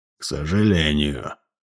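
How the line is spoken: Forced through teeth. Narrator (Russian): выдавил игла сквозь зубы

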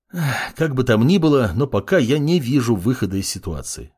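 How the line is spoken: Sigh. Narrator (Russian): вздохнул маг

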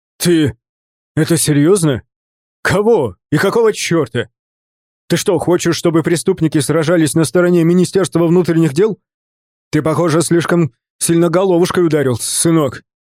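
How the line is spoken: Shouting in disbelief. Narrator (Russian): Владимир Николаевич Никулин закричал

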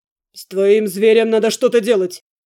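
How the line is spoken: Man's growl. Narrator (Russian): Зарычал в ответ мужчина

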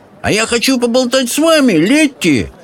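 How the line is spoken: Young man yelling. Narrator (Russian): завопил кто-то из фермерских сынков

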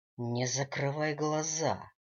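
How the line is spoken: Growl. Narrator (Russian): рыкнул Дэниел

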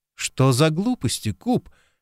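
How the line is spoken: Cheerful laugh. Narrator (Russian): весело рассмеялась Алекс

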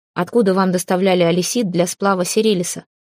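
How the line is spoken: Stern, no playfulness. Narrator (Russian): Строго, без тени былой игры, спросил принц

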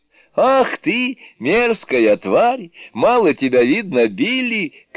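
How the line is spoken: Laughing shout. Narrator (Russian): крикнул, смеясь, Джубадзе

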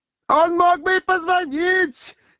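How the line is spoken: Several voices shouting. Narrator (Russian): кричали Денискин, Глухарев и Квант

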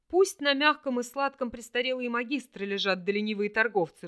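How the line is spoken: Laughing loudly. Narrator (Russian): расхохотался Вельт

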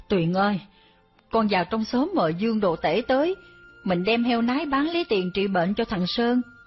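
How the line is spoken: Sighing. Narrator (Vietnamese): bà thở dài bảo anh tôi

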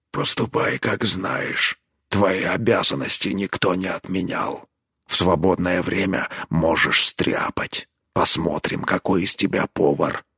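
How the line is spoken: Quiet. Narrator (Russian): Тот тихо ему ответил

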